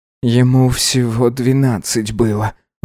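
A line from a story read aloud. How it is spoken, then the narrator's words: Breathy exhale. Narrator (Russian): выдохнул Гидеон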